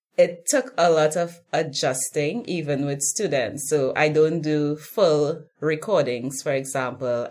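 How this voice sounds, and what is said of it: Caribbean accent. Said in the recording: “the Caribbean accent, my accent is not popular here”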